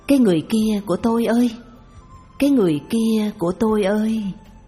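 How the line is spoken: Old woman moaning. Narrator (Vietnamese): Bà lão ở mộ hoang rên rỉ rằng

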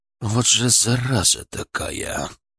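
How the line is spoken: Annoyed curse through teeth. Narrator (Russian): выругался он сквозь зубы, от досады

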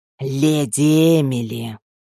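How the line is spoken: Hissed. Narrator (Russian): прошипел

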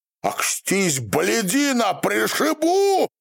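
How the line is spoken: Sudden yell. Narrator (Russian): заорал тот, которого Степан с Фролкой застали на крыше

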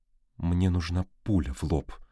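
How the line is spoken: Muttering. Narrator (Russian): пробормотала я

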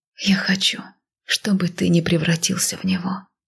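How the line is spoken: Soft whisper. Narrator (Russian): тихо шепнула я

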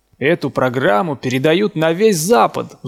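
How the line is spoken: Excited shout. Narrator (Russian): взволнованно прокричал Дин

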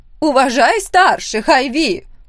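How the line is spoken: Loud. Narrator (Russian): громко сказала

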